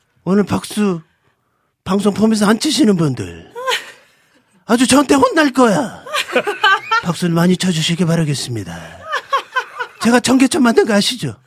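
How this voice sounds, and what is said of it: Imitates another person's voice. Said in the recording (Korean): “성대모사 1탄이었습니다”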